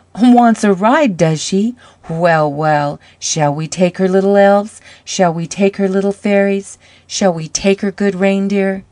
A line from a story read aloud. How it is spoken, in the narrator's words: Then Santa laughed, such a laugh, big and loud and rollicking, and he said